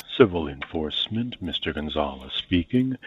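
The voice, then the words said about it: Smooth, polished radio-announcer voice. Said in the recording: “That's a fucking porn star NPR voice if I've ever heard one.”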